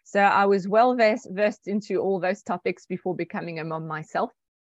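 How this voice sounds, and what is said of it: Slight South African accent. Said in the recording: “I'm hearing a bit of a South African twang.”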